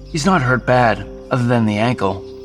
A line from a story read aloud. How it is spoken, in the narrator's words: Jason said